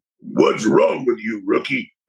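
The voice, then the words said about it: Deep voice imitating another person. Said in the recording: “in his deep voice.”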